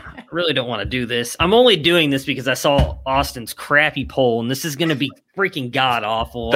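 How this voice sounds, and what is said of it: Usual voice. Nothing is said of it.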